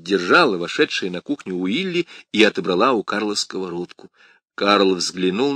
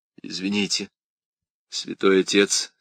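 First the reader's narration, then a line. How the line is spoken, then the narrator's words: Embarrassed mumble. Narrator (Russian): смущенно пробормотала Крис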